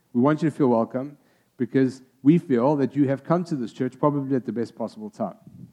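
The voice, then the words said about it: Speaks with an unusual accent. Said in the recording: “He's got a weird accent.”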